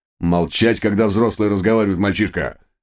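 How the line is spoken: Menacing bark. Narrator (Russian): грозно рявкнул инспектор

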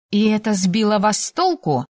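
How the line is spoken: Scoffing snort. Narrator (Russian): фыркнула я

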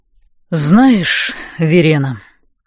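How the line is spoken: Exhaled words. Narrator (Russian): выдохнул Нокс

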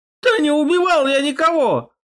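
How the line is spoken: Man howling. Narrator (Russian): взвыл мужик

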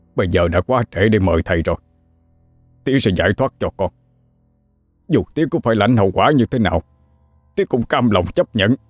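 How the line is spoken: Harsh grim reply. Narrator (Vietnamese): Ông hai gằn giọng đáp lại lời con

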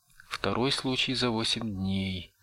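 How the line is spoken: Sighing speech. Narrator (Russian): вздохнув, проговорила Маргарет

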